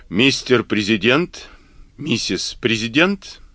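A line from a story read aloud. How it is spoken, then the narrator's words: Mutter. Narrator (Russian): он пробормотал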